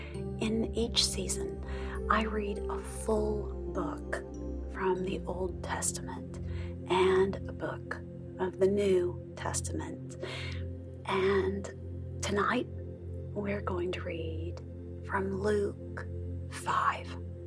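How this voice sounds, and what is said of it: Soft, gentle speaking voice. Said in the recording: “in a soft voice”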